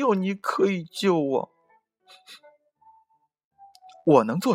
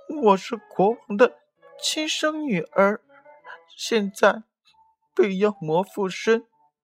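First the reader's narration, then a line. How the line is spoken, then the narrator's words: Crying. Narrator (Chinese): 乌鸦哭着说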